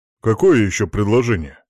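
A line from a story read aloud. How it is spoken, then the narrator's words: Young boar grumbling. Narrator (Russian): проворчал кабанчик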